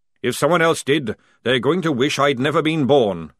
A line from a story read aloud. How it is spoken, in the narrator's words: growled Jackram